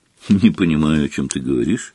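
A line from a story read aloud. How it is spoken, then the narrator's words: Grumble. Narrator (Russian): буркнул Гарри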